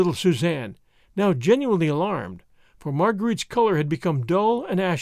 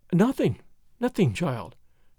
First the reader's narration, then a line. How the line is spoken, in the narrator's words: she murmured, as if in a dream